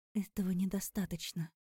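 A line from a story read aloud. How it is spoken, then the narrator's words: Whispered. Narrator (Russian): прошептала я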